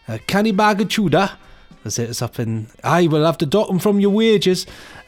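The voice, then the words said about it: Poor put-on Newcastle accent. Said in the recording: “That's my terrible Newcastle accent”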